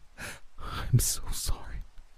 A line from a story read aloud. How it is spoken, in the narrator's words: feeling my throat burn as I whispered to her